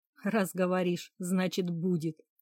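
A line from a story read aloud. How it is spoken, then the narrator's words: Laughing man. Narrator (Russian): рассмеялся мужчина и продолжил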